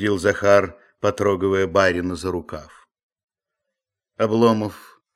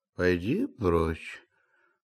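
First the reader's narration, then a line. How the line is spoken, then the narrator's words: Grumbling. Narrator (Russian): проворчал Илья Ильич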